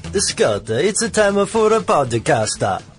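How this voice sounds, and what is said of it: Put-on, not very good Italian accent. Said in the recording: “that wasn't very good either ... What accent that was? That's not the way I really sound. ... Italian. It was Italian.”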